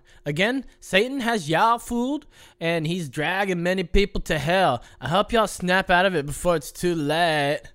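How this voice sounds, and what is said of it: Put-on unspecified accent. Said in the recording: “I went with a different accent. ... You did.”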